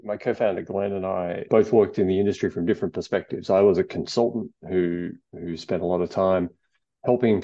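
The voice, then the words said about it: Australian accent. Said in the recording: “I'm Australian. You can tell from the accent.”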